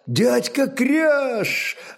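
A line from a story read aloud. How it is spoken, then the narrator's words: Joyful greeting. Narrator (Russian): радостно приветствовал его кельт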